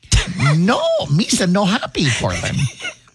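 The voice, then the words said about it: Bad imitation of Jar Jar Binks. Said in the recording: “That's a horrible impersonation ... That was really bad.”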